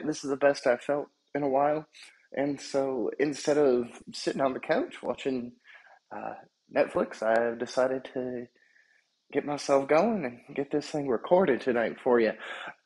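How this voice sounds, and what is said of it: Voice not fully recovered, slightly rough. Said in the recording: “My voice isn't 100% there”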